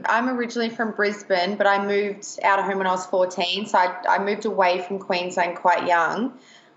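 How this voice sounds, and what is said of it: Australian accent. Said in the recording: “I think you're in Australia. I can hear the accent.”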